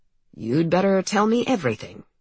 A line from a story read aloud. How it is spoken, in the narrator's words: says calmly